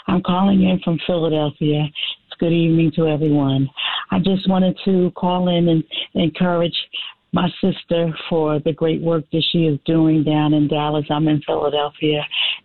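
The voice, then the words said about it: Raspy voice. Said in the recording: “Excuse my raspy voice.”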